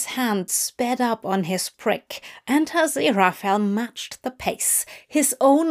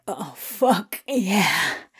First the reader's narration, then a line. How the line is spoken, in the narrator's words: he gasped